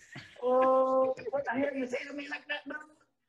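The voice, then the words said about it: Put-on Vietnamese accent, high-pitched voice. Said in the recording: “accent ... Vietnamese, which they have a very high voice like this, like they've been doing the cocaine all day”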